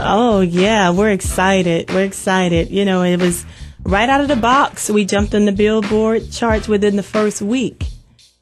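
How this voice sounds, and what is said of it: Slight Southern US accent. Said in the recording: “they're trying to pick up that accent ... It's got a little southern in it, but I'm not exactly sure what state ... I hear that in your voice now”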